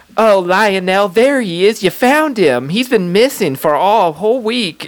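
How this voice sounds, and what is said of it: Southern belle style impression. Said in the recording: “Why did you turn Michael Jackson into a Southern Belle? ... I don't do a good MJ”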